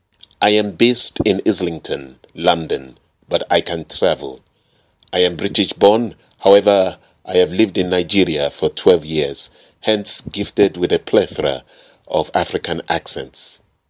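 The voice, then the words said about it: Put-on West African accent. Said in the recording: “West African accent, depending on which part of West Africa we're talking about. Here I'm going for the east side of West Africa, which covers Ghana, Nigeria, and Cameroon.”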